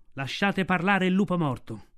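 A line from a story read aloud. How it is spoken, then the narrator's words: Elders thundering. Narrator (Italian): gli anziani del branco tuonarono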